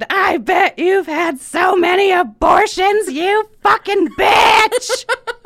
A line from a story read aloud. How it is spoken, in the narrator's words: as she got dragged out of there, she screamed